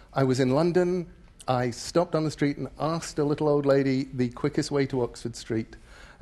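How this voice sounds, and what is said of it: English accent. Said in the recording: “I still have enough of an English accent that all around the world people say to me, "You aren't from around here, are you?"”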